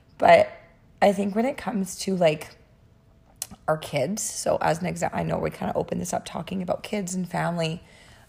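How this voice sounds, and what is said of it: Voice sounds bad, impaired. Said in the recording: “my voice is so bad”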